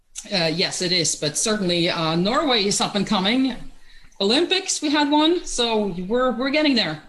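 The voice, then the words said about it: Norwegian accent. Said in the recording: “that's not an American accent, I hear. You're originally from Norway”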